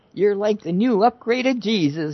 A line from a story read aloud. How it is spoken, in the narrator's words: she laughed